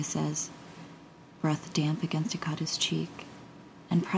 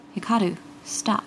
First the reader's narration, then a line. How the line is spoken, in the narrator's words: Toya Ikeda gasp